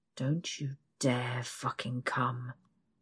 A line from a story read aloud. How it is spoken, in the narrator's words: growls